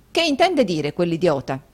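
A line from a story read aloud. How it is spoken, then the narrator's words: Harsh exclamation. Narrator (Italian): esclamò Rodolfo con durezza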